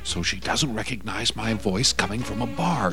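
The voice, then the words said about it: Whispering. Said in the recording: “Who are you whispering to? ... Why are you whispering?”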